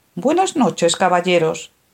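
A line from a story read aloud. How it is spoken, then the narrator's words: Marquise's exclamation. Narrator (Spanish): exclamó la marquesa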